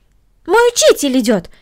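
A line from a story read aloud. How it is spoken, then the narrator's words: Exclamation. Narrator (Russian): воскликнула Корнели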